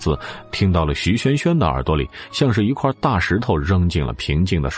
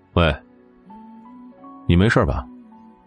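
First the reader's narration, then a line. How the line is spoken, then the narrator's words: Cold, distant voice. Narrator (Chinese): 冷冷的声音好像从很远的地方传来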